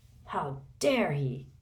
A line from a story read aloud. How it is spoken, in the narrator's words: Hagrid growled